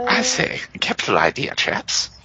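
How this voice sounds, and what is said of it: Put-on character voice. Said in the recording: “Rhogar's new character voice”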